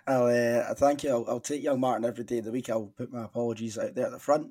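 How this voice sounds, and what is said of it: Strained voice, not at its sharpest. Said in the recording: “As you might hear, my voice is not at its sharpest.”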